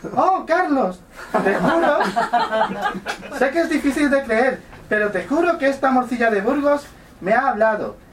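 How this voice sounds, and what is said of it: Man putting on a woman's voice. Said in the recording (Spanish): “Cuando haya voz de femenina, voy a poner voz de mujer”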